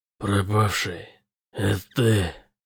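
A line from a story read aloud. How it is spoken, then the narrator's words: Hoarse rasp. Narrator (Russian): прохрипел он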